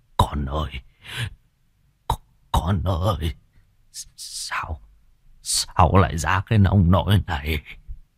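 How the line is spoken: Stammering in shock. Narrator (Vietnamese): Gương mặt của ông trắng bạch cắt không còn giọt máu, lắp bắp

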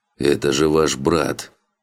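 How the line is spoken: Frightened wheeze. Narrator (Russian): прохрипел Марио, больше испуганный выражением лица Тейн, чем борьбой с Алином за свою жизнь

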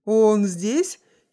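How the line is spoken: Pleased giggle. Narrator (Russian): хихикнул Хиллари, обрадованный тем, что защита жертвы дала первую осечку

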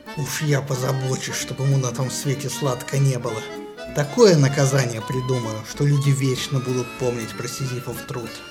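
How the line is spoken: Furious spitting hiss. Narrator (Russian): Аид же, брызгая слюной, прошипел

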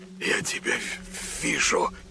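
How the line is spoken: Stunned whisper. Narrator (Russian): прошептал он не веря своим глазам

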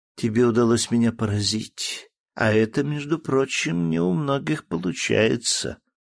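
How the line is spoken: Languid drawl. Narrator (Russian): томным голосом протянула Вера

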